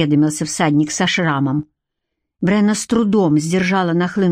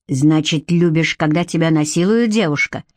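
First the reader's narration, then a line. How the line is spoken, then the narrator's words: Growling. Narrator (Russian): прорычал он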